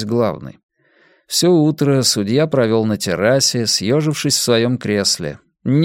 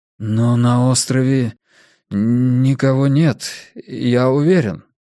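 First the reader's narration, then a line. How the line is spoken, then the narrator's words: Trembling voice. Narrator (Russian): дрогнувшим голосом произнес Армстронг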